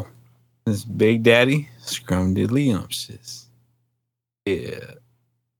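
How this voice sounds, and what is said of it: Put-on smooth voice. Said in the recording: “put on his smooth voice”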